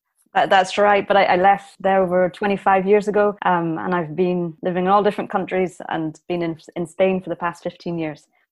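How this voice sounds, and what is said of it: Slight Northern Irish accent. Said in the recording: “the tinge of your accent. ... you're originally from Ballymoney in Northern Ireland.”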